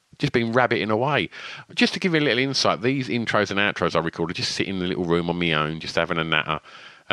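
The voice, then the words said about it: Essex accent. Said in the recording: “my lazy Essex twang”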